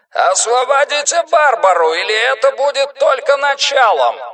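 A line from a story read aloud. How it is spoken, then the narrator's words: Megaphone-amplified roar. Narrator (Russian): проревел усиленный мегафоном голос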